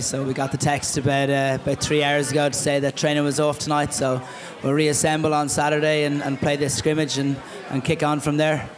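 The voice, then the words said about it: Non-local accent. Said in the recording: “people have picked up from your accent already, obviously, that you're not from around these parts”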